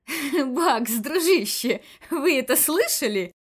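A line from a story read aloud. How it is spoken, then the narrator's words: Speaking through laughter. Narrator (Russian): Сквозь смех продолжил комиссар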